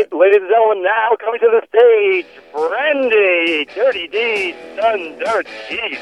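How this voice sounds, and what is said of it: Strip club DJ announcer voice. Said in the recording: “let me do my stripper DJ voice”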